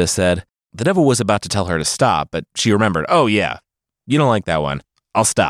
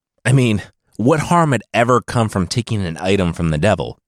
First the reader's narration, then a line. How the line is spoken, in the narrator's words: Kidda groaned